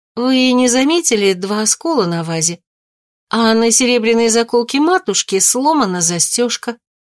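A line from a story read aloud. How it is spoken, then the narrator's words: Innocent tone. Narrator (Russian): Нина невинным тоном произнесла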